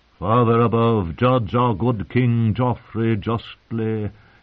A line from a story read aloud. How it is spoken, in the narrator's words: he intoned, beginning the prayer for the dead